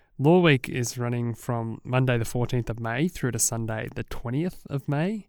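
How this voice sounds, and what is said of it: Sick-sounding, slightly congested voice. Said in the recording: “I apologise about my voice. Yes, I have a bit of a cold,”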